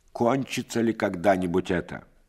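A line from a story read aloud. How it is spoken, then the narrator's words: Menacing. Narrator (Russian): Иван Васильевич грозно скажет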